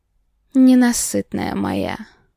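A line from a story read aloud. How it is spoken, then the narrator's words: Satisfied growl. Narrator (Russian): удовлетворенно прорычал Марат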